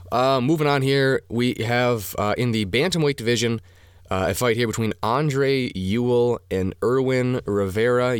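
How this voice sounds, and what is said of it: Hoarse, fading voice. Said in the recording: “I'm already losing my voice. ... sick dude”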